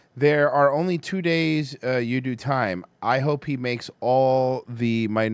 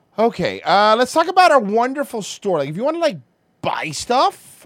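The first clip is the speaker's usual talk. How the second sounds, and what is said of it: Valley guy voice. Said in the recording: “talking like a valley guy”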